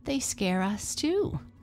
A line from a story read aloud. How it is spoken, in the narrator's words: laughed his friends